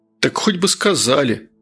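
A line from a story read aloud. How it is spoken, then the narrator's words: Offended drawl. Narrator (Russian): обиженно потянул Жирный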